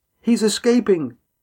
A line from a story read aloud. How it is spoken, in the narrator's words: Dabby shouted